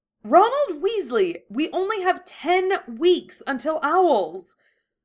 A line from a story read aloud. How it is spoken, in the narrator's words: She screeched